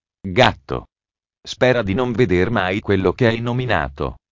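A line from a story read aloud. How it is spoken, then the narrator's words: Voice broken with rage. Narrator (Italian): si incupì parecchio e gli disse con la voce rotta dalla rabbia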